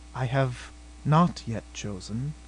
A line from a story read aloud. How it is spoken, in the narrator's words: she murmured